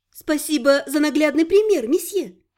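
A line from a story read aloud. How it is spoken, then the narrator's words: Serious, suppressing laughter. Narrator (Russian): Сдерживая смех, серьезно заявила Элька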